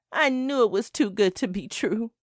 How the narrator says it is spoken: I sobbed

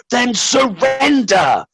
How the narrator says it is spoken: boomed the box

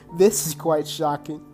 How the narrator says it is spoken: Taylor said, laughing

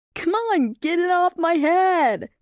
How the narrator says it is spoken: Lightning laughed and called out

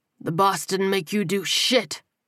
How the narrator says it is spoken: the captain snapped

